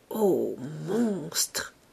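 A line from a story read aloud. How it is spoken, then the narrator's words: Murmuring. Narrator (French): murmurait-elle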